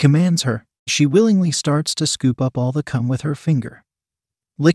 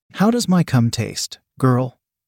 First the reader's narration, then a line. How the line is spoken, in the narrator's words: Greg laughs